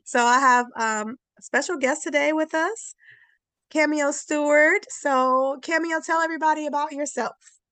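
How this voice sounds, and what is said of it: Slightly altered, unwell-sounding voice. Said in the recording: “I'm a little under the weather today, so my voice is a little, you know, different”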